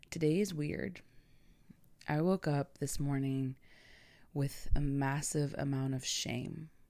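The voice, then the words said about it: Raspy voice. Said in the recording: “I have not spoken to anyone yet today, so excuse my raspy voice.”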